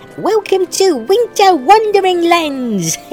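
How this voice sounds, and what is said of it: Scary Christmas elf voice. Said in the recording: “my magical Christmas elf impression ... It was scary.”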